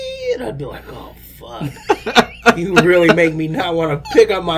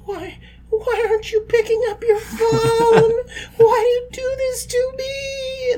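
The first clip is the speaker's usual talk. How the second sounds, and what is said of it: Sad, whiny imitated voice. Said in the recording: “That voice you just did was horrible ... It sounded like a sad voice.”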